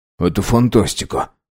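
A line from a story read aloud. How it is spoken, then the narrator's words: Muttered. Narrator (Russian): пробормотал бортинженер Микша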